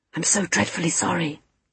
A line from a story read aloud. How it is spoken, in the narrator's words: he whispered